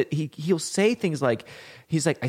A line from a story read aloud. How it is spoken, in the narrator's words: I scream like a little girl